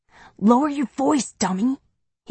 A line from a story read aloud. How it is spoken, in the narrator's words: he says through clenched teeth